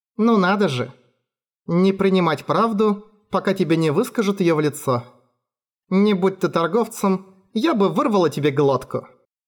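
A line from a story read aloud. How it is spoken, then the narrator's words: Irritated complaint. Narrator (Russian): Пожаловалась она и раздраженно надулась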